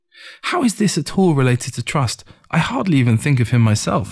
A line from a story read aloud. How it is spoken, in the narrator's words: I said